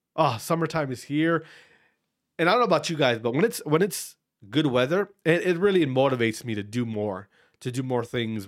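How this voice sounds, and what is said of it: Congested, nasal voice. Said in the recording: “you might hear it in my fucking voice, in my nose, the way I'm breathing. Allergies”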